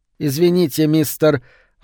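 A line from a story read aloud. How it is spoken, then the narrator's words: Sighing. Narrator (Russian): вздохнула Кэти Шукер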